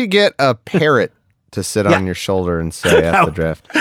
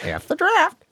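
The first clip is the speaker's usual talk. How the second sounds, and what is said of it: Parrot-like squawking voice. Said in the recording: “That's a really good impersonation of a parrot.”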